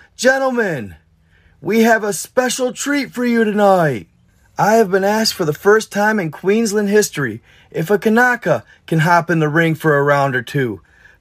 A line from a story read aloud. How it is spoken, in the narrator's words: yells